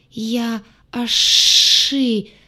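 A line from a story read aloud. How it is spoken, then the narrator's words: Strained. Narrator (Russian): выдавил монстр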